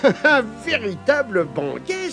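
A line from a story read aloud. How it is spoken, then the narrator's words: Exclaiming. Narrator (French): s'écria Isidore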